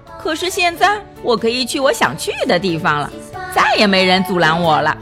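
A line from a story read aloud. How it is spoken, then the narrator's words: Sneering. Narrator (Chinese): 她冷笑着说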